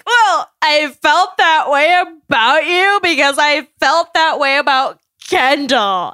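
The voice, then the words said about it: Impression of Grocery Store Joe. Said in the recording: “It's a great impression.”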